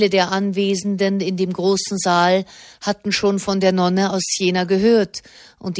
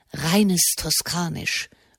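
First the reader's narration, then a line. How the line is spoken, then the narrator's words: Whispered. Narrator (German): flüsterte Erzbischof Brignano dem Kardinal Corsini zu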